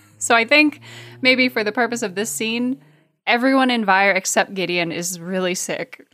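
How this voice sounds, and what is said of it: Hoarse, fading voice. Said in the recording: “I'm losing my voice in a super real way, so you're just going to kind of get like tatters of me”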